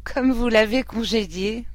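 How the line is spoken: Laughing. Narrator (French): dit-elle en riant

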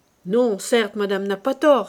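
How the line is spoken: Delighted cowardly exclamation. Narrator (French): s'écria, qui avait écouté les cris terribles avec le ravissement d'un poltron

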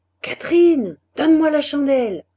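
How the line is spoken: Shouting. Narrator (French): cria Maheu

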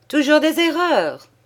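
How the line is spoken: Murmured. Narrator (French): murmura le père Tabaret

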